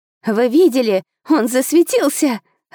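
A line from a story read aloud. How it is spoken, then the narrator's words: Excited child squealing. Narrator (Russian): радостно верещала девчушка с косичками лет 9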